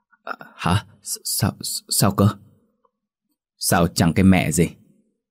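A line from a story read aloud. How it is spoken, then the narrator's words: Stammering. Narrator (Vietnamese): Tâm lắp bắp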